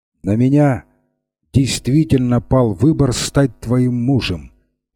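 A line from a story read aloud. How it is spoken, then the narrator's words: Firm voice. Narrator (Russian): продолжал он твердым голосом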